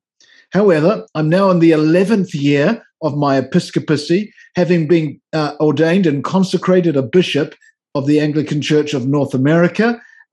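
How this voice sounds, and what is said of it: New Zealand accent. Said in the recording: “As you might tell from my accent, I didn't grow up in North America ... in New Zealand, where I came from”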